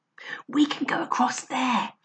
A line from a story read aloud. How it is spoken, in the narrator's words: he whispered